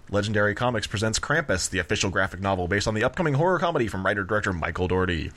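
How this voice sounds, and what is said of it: Announcer-style radio voice. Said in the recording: “radio voice... Micro Machines guy”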